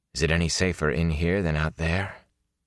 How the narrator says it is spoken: Rand said softly

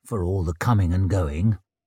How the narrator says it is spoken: murmured the surgeon

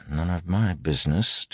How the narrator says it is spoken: heard him muttering

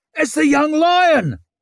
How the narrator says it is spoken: someone barked

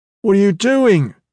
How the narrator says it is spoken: Big Leo shouted

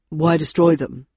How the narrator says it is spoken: asked Landon

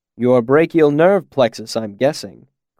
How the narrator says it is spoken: Quoth said dryly

